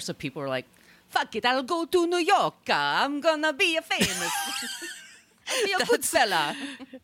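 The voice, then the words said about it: Put-on exaggerated Italian accent. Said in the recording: “That's some serious House of Gucci accent you got going there.”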